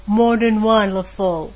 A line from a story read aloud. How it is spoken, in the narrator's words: had boasted pompously